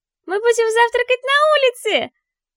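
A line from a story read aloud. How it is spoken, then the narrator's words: Happy squeal. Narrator (Russian): довольно взвизгивает Лея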